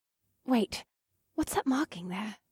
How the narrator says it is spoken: Asta murmured

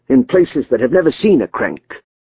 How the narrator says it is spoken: Dietrich snapped

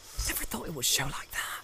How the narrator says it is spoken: he muttered

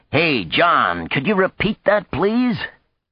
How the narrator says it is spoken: with a great roar, shouting

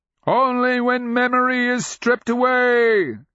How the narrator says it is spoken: Clara cried out

